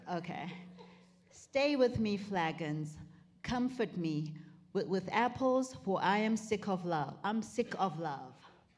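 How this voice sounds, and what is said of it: Put-on British accent. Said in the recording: “would you read this for us in the best Shakespearean or British English you got?”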